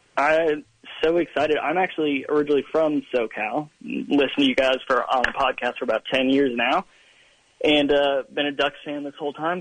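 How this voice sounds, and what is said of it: Regional Georgia-sounding accent. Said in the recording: “You have an accent... Sound like you lived there longer”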